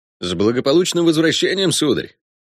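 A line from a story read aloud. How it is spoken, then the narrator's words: Cheerful congratulation. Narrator (Russian): весело поздравил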